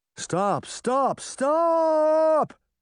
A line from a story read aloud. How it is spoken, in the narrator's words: the Tin Man shouted